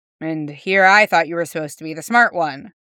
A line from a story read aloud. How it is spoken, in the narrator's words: the person said